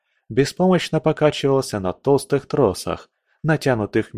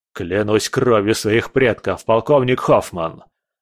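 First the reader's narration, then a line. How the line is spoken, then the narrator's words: Growl. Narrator (Russian): рычал Келлер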